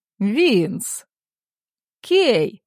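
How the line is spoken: Joyful. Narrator (Russian): радостно отзывается

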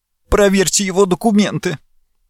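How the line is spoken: Sobbing demand. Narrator (Russian): всхлипывая, потребовала

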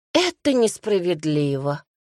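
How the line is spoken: Tired reply. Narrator (Russian): устало отозвался

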